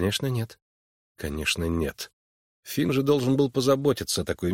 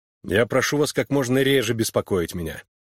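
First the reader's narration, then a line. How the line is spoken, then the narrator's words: Irritated. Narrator (Russian): раздраженно проговорил он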